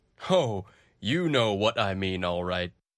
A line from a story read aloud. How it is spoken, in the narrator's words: answered